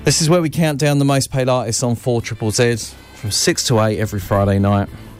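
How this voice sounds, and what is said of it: Slightly annoying English accent. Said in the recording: “talking over it in a slightly annoying English accent.”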